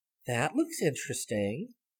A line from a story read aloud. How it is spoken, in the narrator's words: murmured Sally